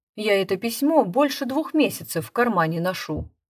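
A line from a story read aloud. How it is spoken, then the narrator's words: Plain. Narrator (Russian): сказал землячок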